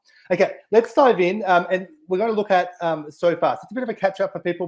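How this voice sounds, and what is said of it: Slightly off voice from a cold. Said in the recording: “excuse my voice ... I've got a bit of a cold ... if I sound a little bit off”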